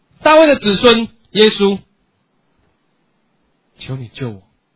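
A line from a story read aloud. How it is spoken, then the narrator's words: Shout. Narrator (Chinese): 他对耶稣非常有信心，他就喊了一句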